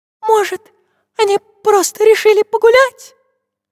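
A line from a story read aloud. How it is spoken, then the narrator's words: Squeaky little voice. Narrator (Russian): спросила писклявым голосочком Настенька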